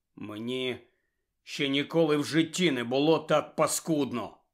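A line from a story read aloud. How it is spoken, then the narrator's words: Hollow muffled voice. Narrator (Ukrainian): промовив глухим голосом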